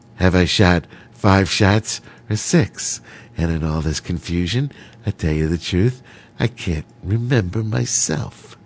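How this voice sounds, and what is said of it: Imitates another person's voice. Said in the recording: “my imitation there, right there. Dirty Harry.”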